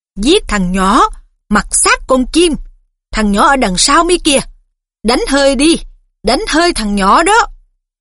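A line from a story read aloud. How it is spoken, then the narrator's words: Shrill scream. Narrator (Vietnamese): Tiếng thét của Riddle vẫn vang lanh lảnh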